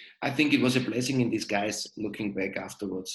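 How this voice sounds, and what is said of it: Usual voice. Nothing is said of it.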